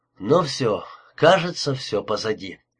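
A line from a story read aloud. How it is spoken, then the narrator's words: Relieved exhale. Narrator (Russian): выдохнул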